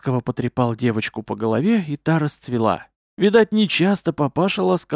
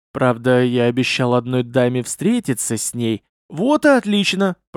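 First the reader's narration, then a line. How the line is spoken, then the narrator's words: Softening low boom. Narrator (Russian): прогудел Ар-Рави, смягчаясь при словах о даме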